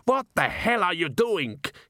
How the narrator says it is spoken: he shouted to a field of a few stray sheep

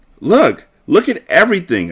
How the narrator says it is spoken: I exclaimed

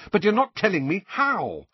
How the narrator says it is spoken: said Harry angrily

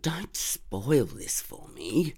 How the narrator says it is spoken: Dave said sulkily

